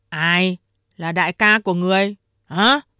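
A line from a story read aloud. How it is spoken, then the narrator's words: Stern interruption. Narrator (Vietnamese): Đại Hổ nghiêm giọng ngắt lời Ba Hổ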